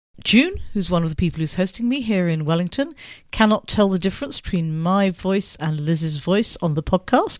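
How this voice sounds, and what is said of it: Northern English accent. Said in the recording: “you both do have northern accents”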